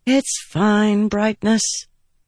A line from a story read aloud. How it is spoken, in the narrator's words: Shallan said with a sigh